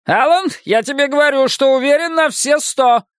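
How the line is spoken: Shouted to crowd. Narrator (Russian): И крикнул публике и другим кандидатам

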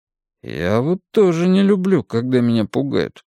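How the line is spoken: Grumbled. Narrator (Russian): пробурчал Билл

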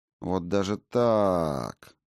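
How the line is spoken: Drawn-out drawl. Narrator (Russian): протянула та

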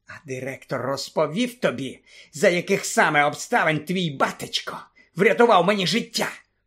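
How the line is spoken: Hissing. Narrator (Ukrainian): просичав він

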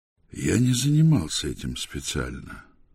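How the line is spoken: Calm. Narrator (Russian): спокойно ответил Патриций

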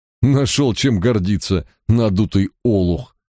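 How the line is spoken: Mocking laughter. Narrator (Russian): расхохотался Барк

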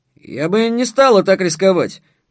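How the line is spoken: Gruff muttering woman. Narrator (Russian): буркнула крокодил в юбке

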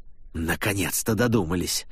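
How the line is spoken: Angry grimace. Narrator (Russian): зло скривился Дассини

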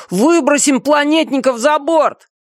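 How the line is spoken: Shouting despite bloody nose. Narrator (Russian): Несмотря на текущую из носа кровь, Тун закричал

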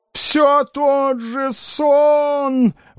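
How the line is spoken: Old man wailing. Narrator (Russian): вопил старый Хворобьев

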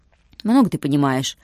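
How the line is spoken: Grumbled mutter in Russian. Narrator (Russian): буркнул Юрик по-русски

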